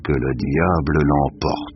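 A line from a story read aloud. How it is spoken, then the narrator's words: Grumbled. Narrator (French): grommela-t-il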